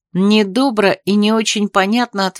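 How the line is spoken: Plain. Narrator (Russian): ответил Грей

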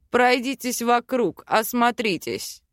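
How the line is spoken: Curt male command. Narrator (Russian): отрывисто приказал мужчина

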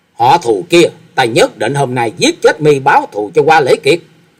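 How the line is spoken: Furious tearful scream. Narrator (Vietnamese): Hạ quanh quanh càng giận dữ, gạt nước mắt nhễ nhãi ở trên mặt, thét lớn

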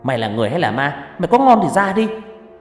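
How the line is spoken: Shouting. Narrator (Vietnamese): hét lên

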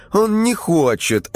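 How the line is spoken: Offended reply. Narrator (Russian): обиженно ответила Варвара

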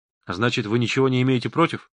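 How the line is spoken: Plain question. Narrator (Russian): спросил я

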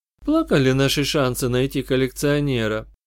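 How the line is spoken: Calm summing up. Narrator (Russian): Спокойно подытожила Сьюзи

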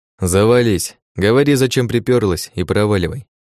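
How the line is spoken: Rude reply. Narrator (Russian): Грубо ответил ей я

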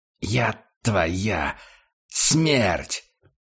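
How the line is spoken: Menacing hiss. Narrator (Russian): прошипел Курт Штайгер

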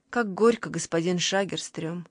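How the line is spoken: Very gentle. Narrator (Russian): очень мягко сказала она

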